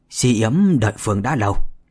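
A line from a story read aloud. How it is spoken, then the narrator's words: Shrill, slurred monster voice. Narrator (Vietnamese): Yêu vật bên phải ... rít lên thê thé, nói bằng chất giọng liệu nhịu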